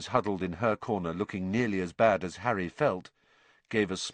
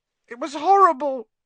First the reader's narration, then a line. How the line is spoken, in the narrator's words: said Neville, in a higher voice than usual